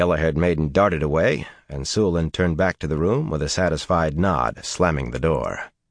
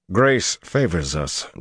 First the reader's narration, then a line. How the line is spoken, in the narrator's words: Dobrain growled